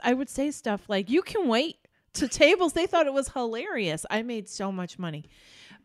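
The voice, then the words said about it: New York accent. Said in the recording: “because I was from New York and they all thought my accent was hilarious”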